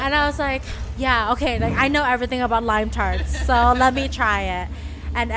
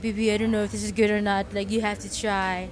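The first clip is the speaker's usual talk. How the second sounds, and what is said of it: Imitated French accent. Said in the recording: “That's that's his French accent.”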